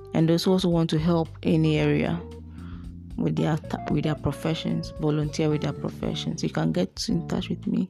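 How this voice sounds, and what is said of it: Low, quiet late-night voice. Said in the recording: “I'm sorry I have my voice is low”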